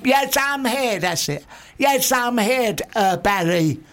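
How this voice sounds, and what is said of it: Changed channeled character voice. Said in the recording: “my voice might change. He comes through me a bit.”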